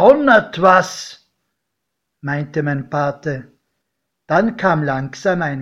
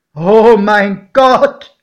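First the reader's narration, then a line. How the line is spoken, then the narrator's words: Shocked exclamation. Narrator (German): rief mein Pate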